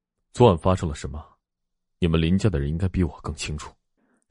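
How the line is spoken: Gloomy, sullen voice. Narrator (Chinese): 声音阴沉的说

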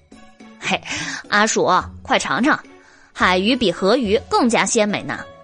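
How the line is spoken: Laughing. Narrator (Chinese): 黎奴笑道

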